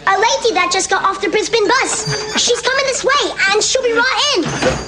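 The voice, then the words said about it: Australian-Cockney accent. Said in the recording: “those fantastic Australian accents ... Aussie-stroke-Cockney accents”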